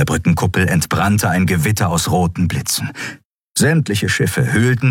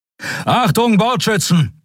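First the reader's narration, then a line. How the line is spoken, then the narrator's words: Called out. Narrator (German): rief er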